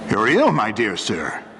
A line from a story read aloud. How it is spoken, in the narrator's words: said a man's kindly voice